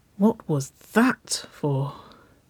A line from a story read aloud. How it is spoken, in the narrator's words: She breathed